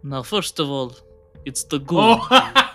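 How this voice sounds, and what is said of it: Put-on Russian accent. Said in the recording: “the Vlad Russian accent”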